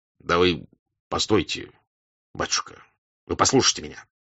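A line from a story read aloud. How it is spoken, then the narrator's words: Calm bass interruption. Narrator (Russian): перебил штаб-ротмистр своим басистым голосом, спокойно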